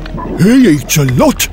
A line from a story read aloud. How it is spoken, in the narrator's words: Fiala grumbled